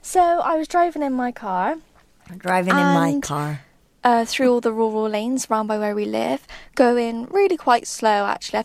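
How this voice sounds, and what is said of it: Noticeable regional accent. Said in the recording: “love her accent”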